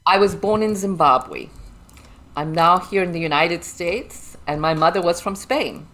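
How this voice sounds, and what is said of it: Slight English-sounding Zimbabwean accent. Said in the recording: “It was a British colony, so that's why we have a slight English accent.”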